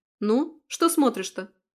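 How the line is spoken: Sharp scolding shout. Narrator (Russian): прикрикнула я

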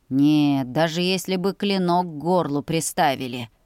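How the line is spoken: General's snorting remark. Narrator (Russian): хмыкнул генерал

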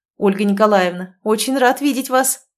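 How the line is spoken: Exclamation. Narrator (Russian): воскликнул Загорский

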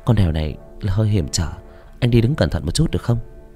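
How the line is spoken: Gentle, smiling. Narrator (Vietnamese): Ly tươi cười nhẹ nhàng cất tiếng

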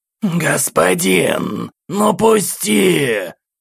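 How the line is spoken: Impatient hoarse voice. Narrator (Russian): Очередной раз раздалось в голове сгорающим от нетерпения хриплым голосом

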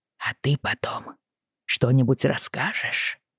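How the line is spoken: Whisper in ear. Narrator (Russian): прошептал черепаха Йену на ухо

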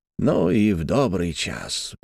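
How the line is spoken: Old man muttering. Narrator (Russian): забормотал старый мастер

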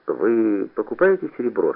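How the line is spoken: Quiet question. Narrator (Russian): спросил я тихо

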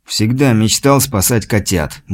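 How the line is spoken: Grumbled. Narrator (Russian): буркнул он

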